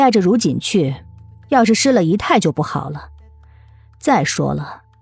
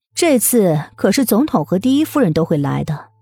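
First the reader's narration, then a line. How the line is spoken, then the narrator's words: Sudden interjection. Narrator (Chinese): 魏秀秀忽然插了一句嘴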